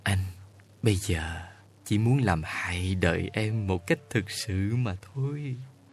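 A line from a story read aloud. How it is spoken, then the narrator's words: Whisper. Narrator (Vietnamese): Xuân tóc đỏ thì thầm vào tai người yêu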